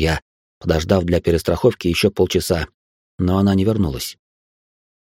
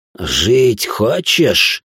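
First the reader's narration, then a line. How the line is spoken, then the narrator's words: Hissing. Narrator (Russian): прошипел я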